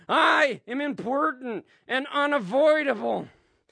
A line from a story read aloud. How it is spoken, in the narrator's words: He cries out